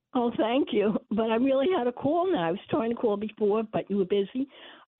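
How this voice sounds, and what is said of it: Sick, cold-affected voice. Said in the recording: “sorry about my voice. I have a little cold.”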